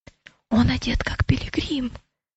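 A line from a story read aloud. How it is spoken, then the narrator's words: Whisper. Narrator (Russian): прошептал Матфей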